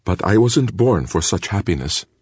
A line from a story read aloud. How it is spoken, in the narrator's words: said Hanzu